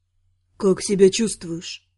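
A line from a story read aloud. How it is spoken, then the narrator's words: Quiet question. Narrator (Russian): спросил тихо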